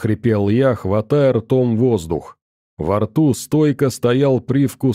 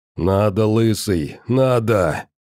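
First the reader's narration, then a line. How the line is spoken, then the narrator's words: Hoarse wheeze. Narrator (Russian): хрипел он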